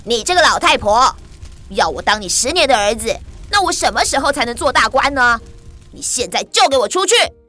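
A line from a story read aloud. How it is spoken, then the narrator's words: Loud, angry. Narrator (Chinese): 年轻人马上收起笑容，变了脸色，大声地说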